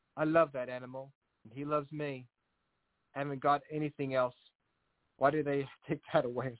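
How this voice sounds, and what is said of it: Put-on English accent. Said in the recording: “I had to give the person from Belgium an English accent.”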